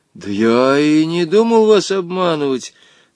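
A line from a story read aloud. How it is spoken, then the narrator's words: Trembling, frightened lie. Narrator (Russian): соврал дрожащим голосом Женя, чувствуя, что теперь-то он окончательно пропал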